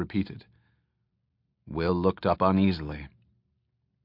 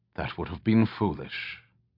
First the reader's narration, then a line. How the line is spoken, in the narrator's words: Alanon spoke quietly